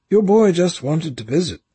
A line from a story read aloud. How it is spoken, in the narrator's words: Randall said kindly